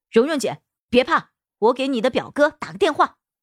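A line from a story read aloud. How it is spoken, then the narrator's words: Calling out. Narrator (Chinese): 高月亮对我喊道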